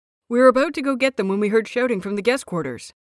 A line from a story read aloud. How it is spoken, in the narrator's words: he says quickly